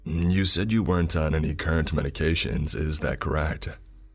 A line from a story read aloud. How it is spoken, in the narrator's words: He asked flatly